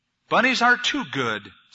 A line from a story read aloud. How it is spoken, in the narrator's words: said the wolf